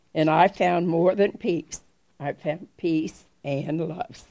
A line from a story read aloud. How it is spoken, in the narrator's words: says Ahmad